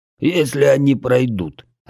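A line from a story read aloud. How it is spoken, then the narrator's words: Growled. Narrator (Russian): рыкнул Бедвар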